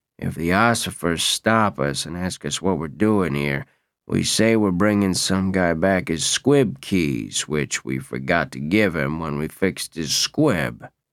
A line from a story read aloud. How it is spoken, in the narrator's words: In a low voice, said to him